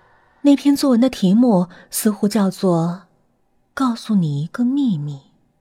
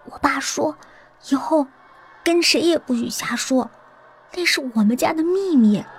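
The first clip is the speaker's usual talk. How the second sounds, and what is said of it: Quiet, hushed voice. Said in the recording (Chinese): “小声补充道”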